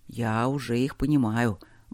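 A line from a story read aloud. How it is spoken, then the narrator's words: Gruff muttering. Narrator (Russian): буркнул Чет Максу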